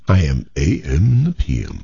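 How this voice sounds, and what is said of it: Radio announcer voice. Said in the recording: “That's his radio voice.”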